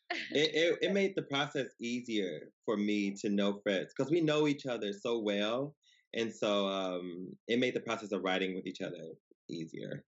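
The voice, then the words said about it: Slight Southern Louisiana drawl. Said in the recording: “Is that Louisiana accent? ... I said your accent. ... You got a little Southern draw there.”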